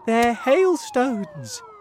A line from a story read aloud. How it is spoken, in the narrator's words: James said excitedly